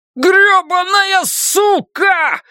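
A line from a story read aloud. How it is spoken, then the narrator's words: Yelling in pain. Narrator (Russian): завопил Кристофер, пытаясь вырвать из ее рта свой пульсирующий от боли большой палец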